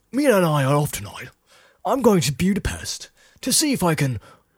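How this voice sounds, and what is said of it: Imitated British accent. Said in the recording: “Keanu Reeves with the British accent.”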